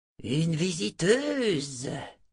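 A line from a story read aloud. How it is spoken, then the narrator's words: Hissing mocking voice. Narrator (French): dit une voix sifflante et moqueuse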